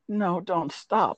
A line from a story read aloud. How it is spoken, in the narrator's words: begged